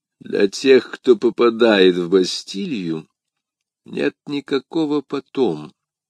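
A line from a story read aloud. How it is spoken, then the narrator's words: Muffled, hollow reply. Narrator (Russian): глухим голосом ответил кардинал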